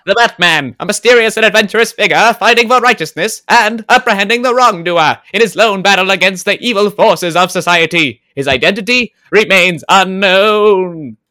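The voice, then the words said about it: Old-timey radio announcer voice. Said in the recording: “can you do this in your little old-timey radio voice?”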